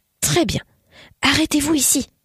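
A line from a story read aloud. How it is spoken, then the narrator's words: Breathed low. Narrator (French): souffla Hieronymus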